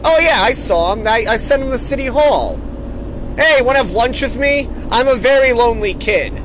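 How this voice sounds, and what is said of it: Outrageous New York accent character voice. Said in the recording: “he's definitely a kid from the South, by the way. You can tell by his outrageous New York accent.”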